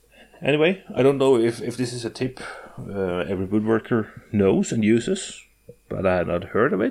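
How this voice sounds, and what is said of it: Norwegian accent. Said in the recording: “My accent is Norwegian”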